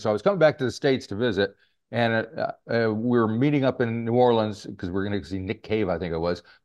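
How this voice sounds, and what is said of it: American accent. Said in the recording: “as you can probably tell from my accent, I'm American”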